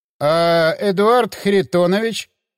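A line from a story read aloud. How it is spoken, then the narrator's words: Uncertain drawl. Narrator (Russian): неуверенно протянул Кузьминок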